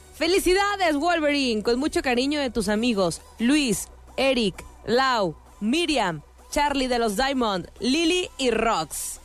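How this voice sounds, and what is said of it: Pretty female announcer voice. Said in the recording (Spanish): “tú con voz de locutora bonita”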